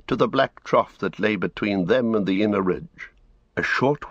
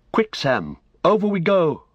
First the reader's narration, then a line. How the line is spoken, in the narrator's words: cried Frodo